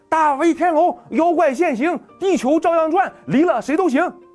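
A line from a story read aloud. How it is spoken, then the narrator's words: Shouting out. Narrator (Chinese): 弟弟……发一声喊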